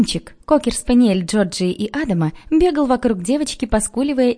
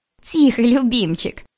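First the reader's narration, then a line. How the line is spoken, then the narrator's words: Laughing. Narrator (Russian): засмеялась Джорджия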